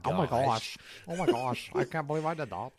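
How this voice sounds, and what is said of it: Put-on Yankee accent. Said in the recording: “In his little Yankee accent. ... Yeah, in his Yankee accent.”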